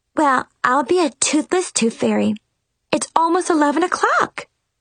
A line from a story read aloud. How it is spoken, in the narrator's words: exclaimed